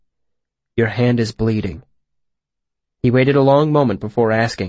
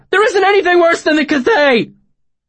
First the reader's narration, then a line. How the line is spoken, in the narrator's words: Bast shouted